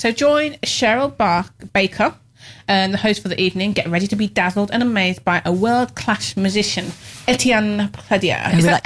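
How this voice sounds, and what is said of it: English Midlands accent. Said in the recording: “That's my Midland accent coming out there.”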